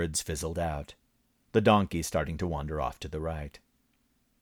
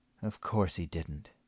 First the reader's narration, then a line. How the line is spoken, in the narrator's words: she muttered